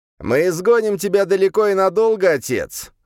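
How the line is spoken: Malicious laugh, elder son. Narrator (Russian): Злобно рассмеялся старший сын

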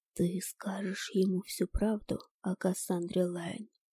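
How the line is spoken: Whisper in ear. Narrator (Russian): шепнул на ухо темный маг

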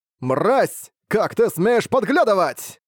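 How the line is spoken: Sudden shout. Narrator (Russian): Фан Юньсяо сразу же крикнул

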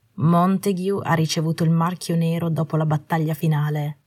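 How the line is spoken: Plain. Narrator (Italian): disse

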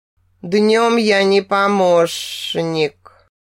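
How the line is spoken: Deep guttural growl. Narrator (Russian): утробно рыкнул Джер

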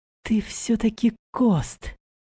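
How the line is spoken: Timid smiling girl. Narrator (Russian): Робко улыбнулась девушка

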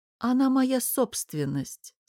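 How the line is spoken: Calm. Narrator (Russian): спокойно сказал тот

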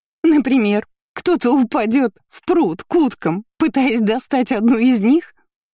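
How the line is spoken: Groaning through laughter. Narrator (Russian): Сквозь смех простонала Лина

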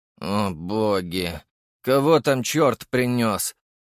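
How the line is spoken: Sigh. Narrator (Russian): вздохнул Черчесов

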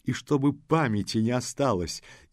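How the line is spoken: Laughing with suppressed glee. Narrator (Russian): засмеялся, подавляя прыщущую, азартную радость

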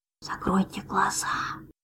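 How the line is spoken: Sudden mouthed whisper. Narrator (Russian): вдруг прошептал одними губами

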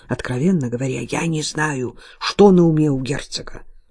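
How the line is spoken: Barely audible mutter. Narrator (Russian): пробормотал отец так тихо, что я едва расслышала

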